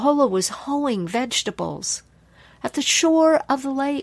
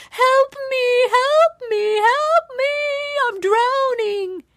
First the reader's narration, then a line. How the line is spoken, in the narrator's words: she began to splash and scream and thrash about